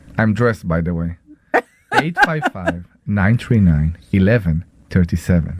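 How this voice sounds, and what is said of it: Sultry, seductive voice. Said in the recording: “Do the sexy voice. You're not doing the sexy voice. Do the sexy voice. ... There we go.”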